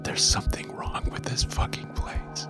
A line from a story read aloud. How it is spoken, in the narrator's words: I whispered